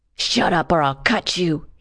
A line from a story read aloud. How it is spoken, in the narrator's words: he hissed